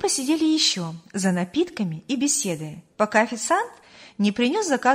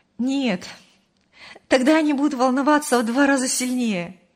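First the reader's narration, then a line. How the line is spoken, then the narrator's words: Laughing. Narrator (Russian): рассмеялась Мария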